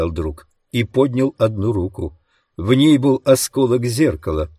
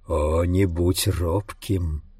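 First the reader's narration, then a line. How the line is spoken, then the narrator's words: Monster's whisper. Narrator (Russian): прошептало чудовище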